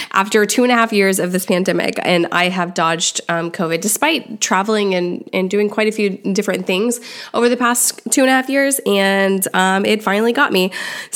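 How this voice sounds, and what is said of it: Voice sounds a little weird. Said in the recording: “my voice sounds a little weird, it's because I am recovering from COVID ... my voice is a little weird”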